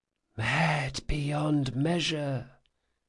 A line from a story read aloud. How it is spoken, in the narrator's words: whispered the circle